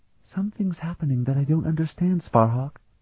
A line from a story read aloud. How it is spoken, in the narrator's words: Danny murmured quietly